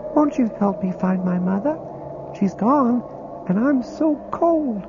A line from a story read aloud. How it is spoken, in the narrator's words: she said in a high, clear voice as sweet as morning mist